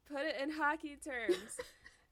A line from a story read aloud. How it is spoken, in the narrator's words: from the floor, Carlos yells